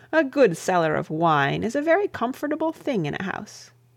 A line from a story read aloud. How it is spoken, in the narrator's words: laughed the bishop